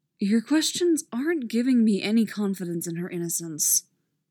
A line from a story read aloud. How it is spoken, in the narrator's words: the sheriff says with a sigh